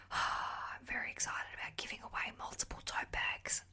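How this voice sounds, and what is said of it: Whispering. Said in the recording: “I'm whispering”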